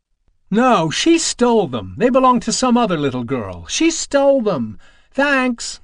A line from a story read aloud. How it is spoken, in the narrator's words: cried Alice